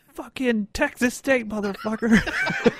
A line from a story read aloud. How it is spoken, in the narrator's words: yelling